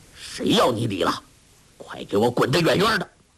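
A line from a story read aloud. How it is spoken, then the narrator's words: Breaking off in pain. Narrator (Chinese): 话未说完，突觉创口一阵剧痛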